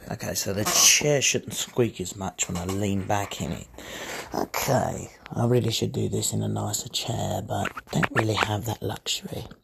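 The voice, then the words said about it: Hoarse, creepy-sounding voice. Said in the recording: “My voice is a bit hoarse today ... Makes me sound a lot creepier.”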